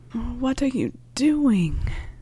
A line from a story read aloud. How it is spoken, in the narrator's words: Harry moaned